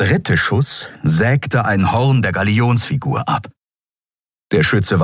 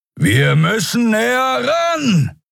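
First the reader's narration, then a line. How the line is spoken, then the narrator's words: Shouting over wind. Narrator (German): rief Kero über den heulenden Fahrtwind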